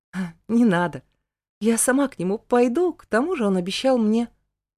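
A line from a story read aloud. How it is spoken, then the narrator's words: Nervous laugh. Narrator (Russian): нервно хохотнула и произнесла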